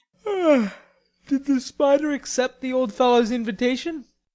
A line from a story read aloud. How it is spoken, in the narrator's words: asked Laurie, yawning